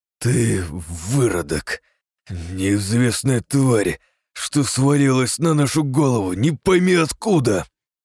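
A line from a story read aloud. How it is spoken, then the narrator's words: Cold, through gritted teeth. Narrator (Russian): Холодно процедил парень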